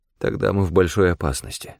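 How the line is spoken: Haunted mutter. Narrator (Russian): пробормотал я, вспомнив ночь кровавого ужаса, когда я нашел истерзанное тело старшего инспектора Грея

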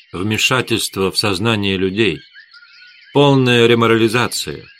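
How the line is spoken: Sighing reply. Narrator (Russian): Эдгар вздохнул и ответил

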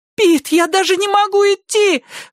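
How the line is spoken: Shrill squeal. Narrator (Russian): взвизгивает Тина

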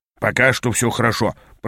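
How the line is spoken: Muttering. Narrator (Russian): пробормотал Ааз

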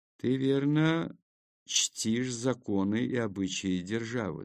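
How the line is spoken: Plain. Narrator (Russian): спросил епископ

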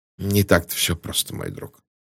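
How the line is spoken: Grumbling mutter. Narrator (Russian): буркнул Пуаро

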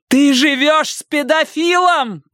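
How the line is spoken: Booming over the noise. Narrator (Russian): прогремела Робин, перекрывая этот гам

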